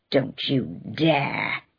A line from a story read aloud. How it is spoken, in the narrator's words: he growled